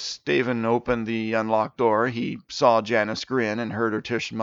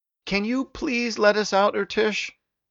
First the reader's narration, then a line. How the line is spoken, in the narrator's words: Steven called out